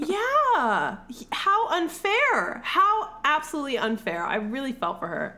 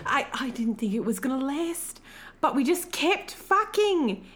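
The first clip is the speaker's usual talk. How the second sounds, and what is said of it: Poor put-on accent. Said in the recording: “my accent is absolute shit. I know this. But I'm going to go for it.”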